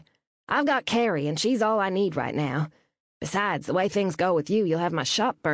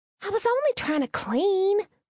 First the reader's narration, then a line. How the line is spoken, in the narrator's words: Reed whined